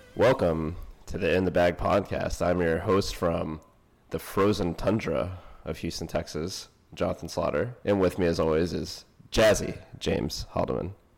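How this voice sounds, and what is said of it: Slightly stuffy, congested voice. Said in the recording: “You sound a little stuffy”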